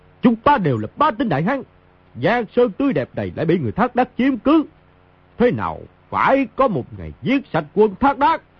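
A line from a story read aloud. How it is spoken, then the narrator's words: Loud proud shout. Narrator (Vietnamese): Mao Thập Bát hiên ngang đứng giữa pháp trường, quát lớn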